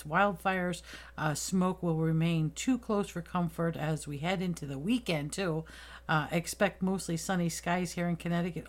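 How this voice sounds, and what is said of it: Slightly raspy voice. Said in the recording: “it's a little raspy in my voice”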